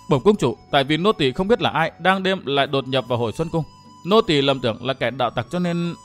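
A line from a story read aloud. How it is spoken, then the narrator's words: Frightened young woman. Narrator (Vietnamese): Ả thiếu nữ áo xanh sợ hãi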